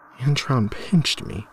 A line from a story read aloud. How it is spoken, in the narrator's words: replied in a shaky voice